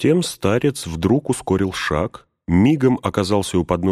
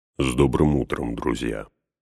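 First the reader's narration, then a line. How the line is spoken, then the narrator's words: Softly spoken. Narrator (Russian): негромко проговорил он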